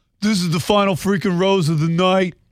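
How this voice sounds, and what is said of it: Put-on New York accent. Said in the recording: “why you make him sound like that ... He's not from New York. You like give him an accent.”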